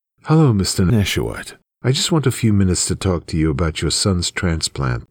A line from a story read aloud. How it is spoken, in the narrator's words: the doctor says